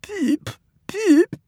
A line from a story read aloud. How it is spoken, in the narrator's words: Rusty's answering